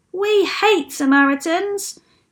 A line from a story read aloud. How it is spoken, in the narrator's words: shouted another